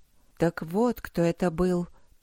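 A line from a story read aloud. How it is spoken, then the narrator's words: Mutter. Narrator (Russian): пробормотала Аня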